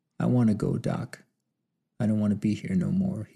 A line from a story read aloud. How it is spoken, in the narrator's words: he said in a small and sad voice